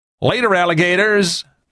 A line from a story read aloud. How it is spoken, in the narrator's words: shouted